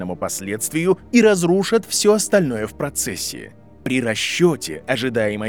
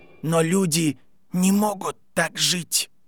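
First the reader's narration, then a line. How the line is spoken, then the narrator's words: Child whispering, empty room. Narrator (Russian): прошептал мальчик в пустом классе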